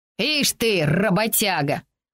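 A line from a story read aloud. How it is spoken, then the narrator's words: Contemptuous snort. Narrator (Russian): презрительно фыркнула доводчица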